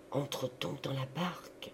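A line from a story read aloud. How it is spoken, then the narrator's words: Murmured. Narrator (French): murmura encore Laurent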